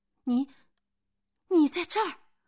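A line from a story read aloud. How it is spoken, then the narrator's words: Excited cry. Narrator (Chinese): 格拉奇亚，克里斯多夫激动的喊了一声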